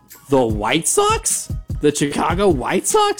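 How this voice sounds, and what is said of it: Imitates another person's voice. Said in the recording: “my Chris Berman impression”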